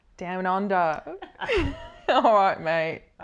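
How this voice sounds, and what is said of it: Put-on Australian accent. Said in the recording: “How's ... Australian going? Because I think it's great.”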